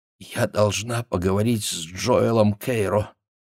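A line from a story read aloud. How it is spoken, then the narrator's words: Barely audible whisper. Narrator (Russian): прошептала едва слышно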